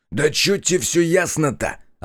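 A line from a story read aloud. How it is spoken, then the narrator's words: Man snapping back. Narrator (Russian): огрызнулся мужик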